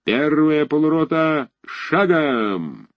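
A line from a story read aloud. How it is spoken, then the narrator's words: Deep muffled distant command. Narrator (Russian): Глухо донесясь сквозь плотные ряды, низко стелясь по самой земле, раздалась впереди густая команда Осадчего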